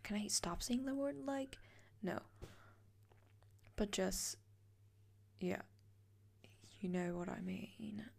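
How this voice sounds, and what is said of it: Slips into a British accent. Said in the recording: “British accent kicking in.”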